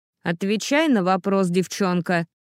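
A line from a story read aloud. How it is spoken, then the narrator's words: Barked. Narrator (Russian): рявкнула леди Линдон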